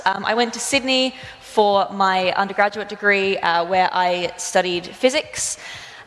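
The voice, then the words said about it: Regional Australian accent. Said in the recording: “I grew up in regional Australia, so if you're trying to pick my accent, that's where it's from”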